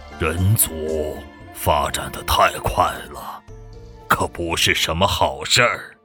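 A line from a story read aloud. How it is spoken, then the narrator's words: Cold muttering to self. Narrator (Chinese): 魔皇目光微寒，喃喃自语道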